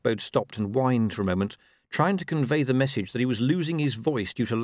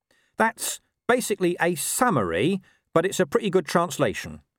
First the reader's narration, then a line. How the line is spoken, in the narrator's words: he said